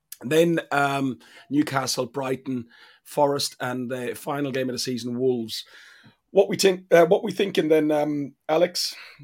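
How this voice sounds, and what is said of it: Irish accent, dropped th sounds. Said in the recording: “That's my Irish accent coming out because I'm really tired. ... The tinking, by the way, is more your sort of, you know, Caribbean style”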